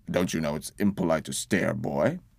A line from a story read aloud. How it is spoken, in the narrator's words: Uncle grunted